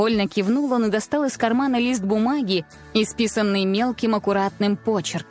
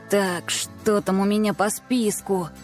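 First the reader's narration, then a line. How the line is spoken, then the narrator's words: Muttered. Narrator (Russian): Пробормотал он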